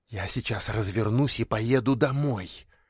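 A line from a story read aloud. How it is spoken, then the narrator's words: Hiss. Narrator (Russian): прошипела Мите Татьяна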